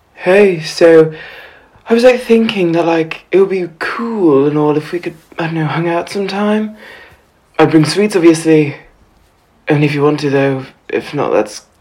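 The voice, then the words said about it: Low, newly broken teenage voice. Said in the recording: “His voice has broken ... It's all funny and low like Dad's. He doesn't sound like the boys at school.”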